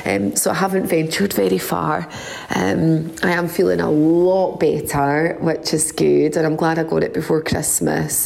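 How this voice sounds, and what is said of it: Voice sounds unwell. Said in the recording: “you'll probably hear from my voice, actually, I have been quite poorly this week”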